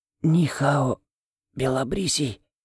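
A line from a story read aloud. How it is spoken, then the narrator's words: Sudden boy's whisper. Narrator (Russian): Вдруг услышал я шепот мальчишки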